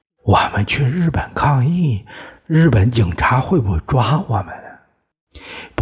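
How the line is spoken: Whispered question. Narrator (Chinese): 他悄声问于拔牙

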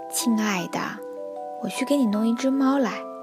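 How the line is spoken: Old woman sighing. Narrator (Chinese): 老奶奶叹了口气说

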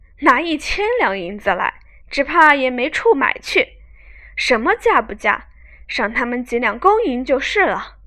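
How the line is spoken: Laughing. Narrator (Chinese): 薛蟠笑道

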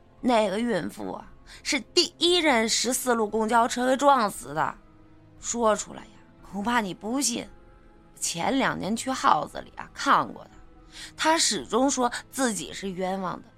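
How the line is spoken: Sighing. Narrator (Chinese): 周炳坤叹了一口气说

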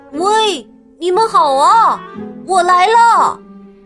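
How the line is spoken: Shouting. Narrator (Chinese): 斯坦利喊

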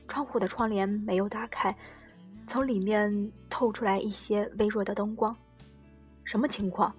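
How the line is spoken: Dazed low murmur. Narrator (Chinese): 太广还是没有回过神来……小声低喃

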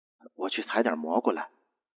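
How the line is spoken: Muttering. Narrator (Chinese): 女人嘀咕道

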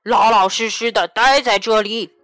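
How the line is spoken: Very loud shout. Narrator (Chinese): 他的叫声太大了

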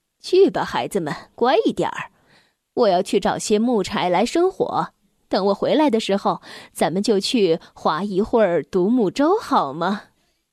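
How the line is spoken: Smiling. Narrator (Chinese): 让笑着说

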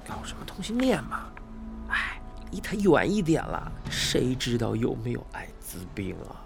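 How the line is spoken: Sneering mutter. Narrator (Chinese): 有人嗤笑出声，小声嘀咕道

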